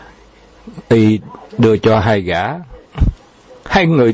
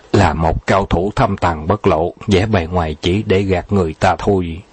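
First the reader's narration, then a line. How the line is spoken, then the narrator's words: Quiet reply. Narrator (Vietnamese): Từ Tử Lăng nhỏ giọng đáp lại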